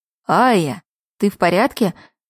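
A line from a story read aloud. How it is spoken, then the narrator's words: Worried voice. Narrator (Russian): взволнованно произнес Юншин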